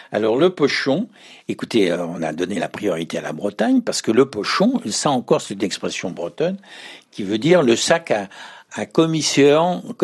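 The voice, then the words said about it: Ardèche regional French accent. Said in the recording (French): “comme on dirait dans ma bonne région d'Ardèche, avec cet accent.”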